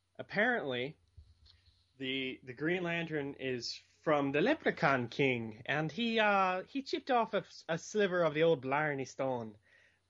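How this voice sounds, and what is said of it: Put-on Irish accent. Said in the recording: “that's my Irish accent intimidation. ... Or imitation.”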